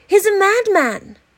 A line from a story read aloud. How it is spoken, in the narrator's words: a youth standing on a housetop cried